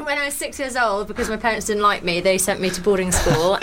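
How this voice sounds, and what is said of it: Geordie accent. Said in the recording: “she reckons she's a Geordie ... I am, man ... my accent”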